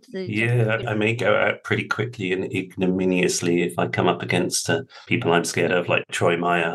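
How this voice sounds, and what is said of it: Precise British English accent. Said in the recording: “this guy's accent is fake. It's just way too precise. There's no one who really speaks like that in England ... pretending to be British”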